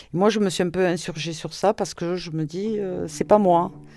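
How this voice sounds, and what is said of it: Toulouse regional French accent. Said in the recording (French): “J'ai fait du théâtre sur Toulouse ... On a essayé souvent de corriger mon accent ... Mon accent fait partie de ce que je suis”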